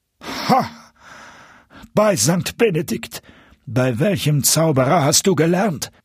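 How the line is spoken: Astonished exclamation. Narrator (German): rief der Koch mit Staunen

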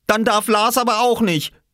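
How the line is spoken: Call. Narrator (German): rief er

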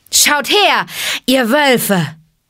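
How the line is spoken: Called out. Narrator (German): rief Mowgli

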